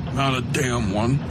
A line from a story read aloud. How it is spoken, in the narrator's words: Coakley muttered